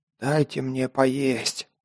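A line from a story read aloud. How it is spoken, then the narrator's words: Hoarse, strange voice. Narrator (Russian): прохрипел я, не узнав собственного голоса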